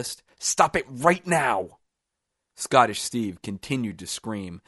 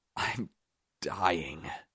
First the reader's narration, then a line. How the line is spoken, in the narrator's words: Scottish Steve whimpered